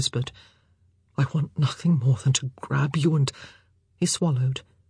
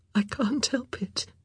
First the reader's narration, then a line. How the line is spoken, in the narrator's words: she said, her voice shaking